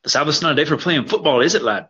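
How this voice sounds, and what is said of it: Put-on accent, done well. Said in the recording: “He did that accent quite well. ... That was very good.”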